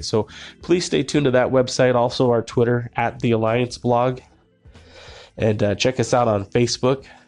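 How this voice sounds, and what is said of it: Slightly rough, under-the-weather voice. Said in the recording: “I'm a little under the weather right now, so if my voice sounds a little bit worse than usual”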